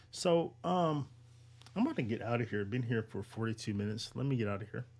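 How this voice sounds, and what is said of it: Tired-sounding voice. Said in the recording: “you can tell by my voice I'm tired”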